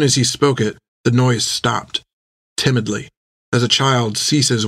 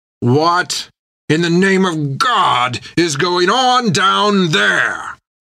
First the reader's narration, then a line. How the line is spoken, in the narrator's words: Creech shouted down the steps in irritation at the splashing noise